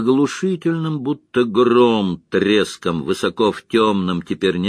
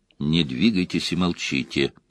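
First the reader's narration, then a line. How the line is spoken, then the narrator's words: Whisper. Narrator (Russian): прошептал он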